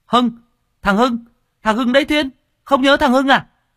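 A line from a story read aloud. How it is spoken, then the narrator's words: Sudden exclamation. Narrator (Vietnamese): thằng Trung Béo ở bên kia nó lập tức kêu lên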